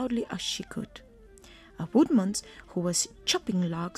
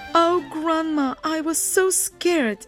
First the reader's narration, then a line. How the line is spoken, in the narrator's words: sobbed the Little Red Riding Hood